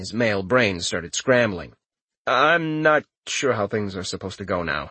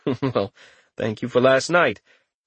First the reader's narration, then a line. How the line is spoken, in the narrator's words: chuckled as well and said